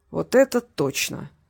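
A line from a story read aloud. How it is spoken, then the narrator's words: Grumbling mutter. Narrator (Russian): буркнул Харитонов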